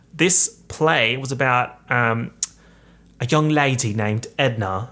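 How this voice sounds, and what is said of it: Put-on Australian accent. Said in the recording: “I don't know why I'm doing that accent. She's Australian”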